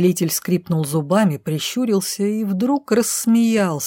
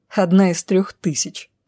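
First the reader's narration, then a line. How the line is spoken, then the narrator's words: Snorting. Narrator (Russian): фыркнула я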